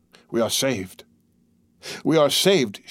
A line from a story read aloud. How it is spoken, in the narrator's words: murmured